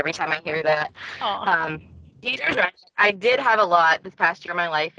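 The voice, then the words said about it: Teary, emotional voice. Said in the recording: “I'm sorry, I get teary”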